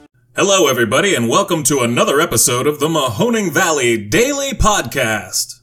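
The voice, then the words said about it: Exaggerated professional announcer voice. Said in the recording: “I thought I'd get a little spicy there for a second. You know, work on my pro-announcer voice.”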